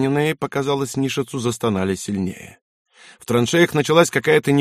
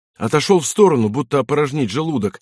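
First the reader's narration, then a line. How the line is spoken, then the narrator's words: Excited narration. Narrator (Russian): взволнованно рассказывал Яунзен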